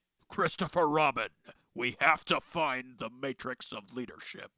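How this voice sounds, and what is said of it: Peter Cullen Optimus Prime voice impression. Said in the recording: “Mr. Peter Cullen was none other than the voice of Eeyore.”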